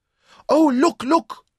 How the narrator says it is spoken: Louisa cried with delight

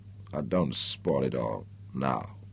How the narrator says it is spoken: she murmured sleepily

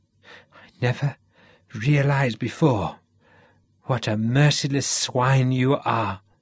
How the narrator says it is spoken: choked Garrick

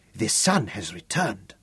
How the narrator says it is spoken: Gundang croaked in religious terror

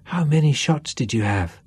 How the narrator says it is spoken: asked someone in an awed voice

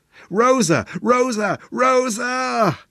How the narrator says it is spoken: the echo shouted back

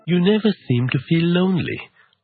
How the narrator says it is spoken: remarked wistfully

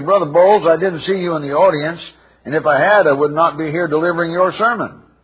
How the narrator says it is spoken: He exclaimed in dismay

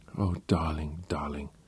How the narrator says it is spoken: she whispered, low enough so that the others in the room couldn't hear her

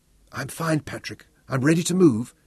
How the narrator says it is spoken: called back softly

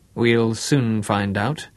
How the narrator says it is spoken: Bruce assured him grimly

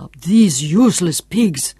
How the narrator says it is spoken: Tiputip snarled

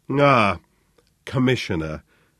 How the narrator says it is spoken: Von Kleiner greeted him coolly

